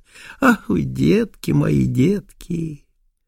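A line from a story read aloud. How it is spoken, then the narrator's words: Sighing. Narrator (Russian): вдруг вздохнет и скажет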